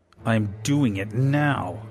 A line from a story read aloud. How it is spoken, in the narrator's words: David growled